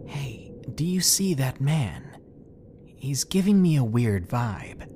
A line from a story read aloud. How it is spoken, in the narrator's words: my sister whispered to me